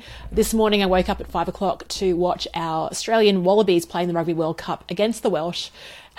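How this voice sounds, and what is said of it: Slightly rough voice. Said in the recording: “my voice is also a little bit rough”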